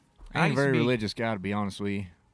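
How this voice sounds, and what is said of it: Put-on character accent. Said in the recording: “my accent comes out a little bit”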